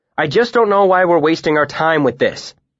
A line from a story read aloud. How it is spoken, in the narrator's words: I snapped